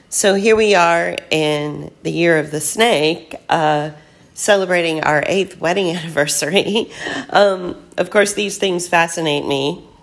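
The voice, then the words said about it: Rough, hoarse voice. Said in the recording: “my voice is a little rough. I'm at the tail end of this really bad cough”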